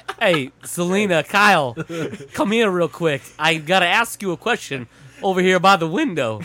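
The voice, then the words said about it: Mediocre Christopher Walken impression. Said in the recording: “the worst mildly good Christopher Walken impression I've ever heard in my life ... it's good enough to know it's Christopher Walken, but then awful after you realize it's Christopher Walken”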